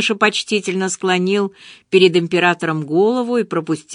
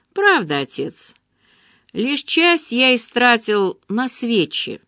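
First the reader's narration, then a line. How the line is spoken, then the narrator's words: Plain. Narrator (Russian): ответил младший сын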